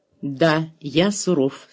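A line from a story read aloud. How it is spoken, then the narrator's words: Calm reply. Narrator (Russian): спокойно ответил доктор Шуман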